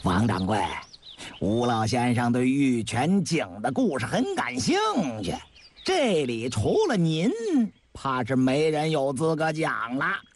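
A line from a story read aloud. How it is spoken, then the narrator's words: Smiling. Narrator (Chinese): 郭德义又笑了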